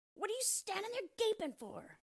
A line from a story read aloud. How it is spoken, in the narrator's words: screamed the dwarf, and his ashen gray face became scarlet with rage